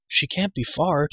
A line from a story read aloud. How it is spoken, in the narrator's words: Terran cried